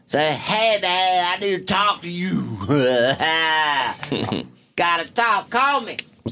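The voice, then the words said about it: Cartoon villain-like imitated voice. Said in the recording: “It sounded like you were doing a Percy there ... Doing your Percy impression ... That sounds like a villain from, like, a Disney cartoon.”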